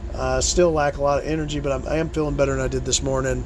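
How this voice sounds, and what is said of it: Damaged, rough-sounding voice. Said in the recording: “My voice is still fucked up.”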